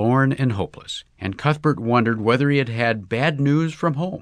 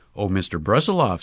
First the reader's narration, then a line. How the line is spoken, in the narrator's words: said Mrs